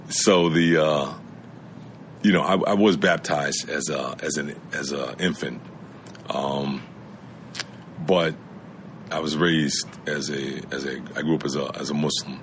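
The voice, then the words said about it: New York accent. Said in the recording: “Still got that New York accent, though.”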